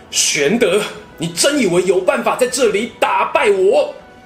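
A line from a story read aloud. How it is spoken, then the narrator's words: Angry. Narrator (Chinese): 曹操 对刘备怒道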